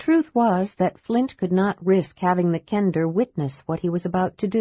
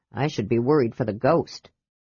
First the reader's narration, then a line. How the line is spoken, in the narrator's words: Flint muttered